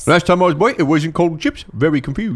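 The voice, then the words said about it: Put-on Cornish accent. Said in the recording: “I'm doing a Cornish accent ... For some reason. That's incorrect.”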